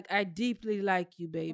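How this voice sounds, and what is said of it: Unconvincing attempt at African accent. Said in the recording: “Why you gotta do the accent ... you don't sound African ... You sound like Columbia, South Carolina. ... Trying to do African.”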